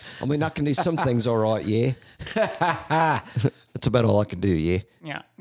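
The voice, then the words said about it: Bad put-on Australian accent. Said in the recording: “using an Australian accent. It's really bad.”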